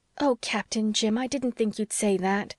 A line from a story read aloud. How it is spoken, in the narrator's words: she exclaimed reproachfully